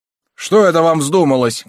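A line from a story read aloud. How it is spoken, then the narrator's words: Shouting. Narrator (Russian): кричали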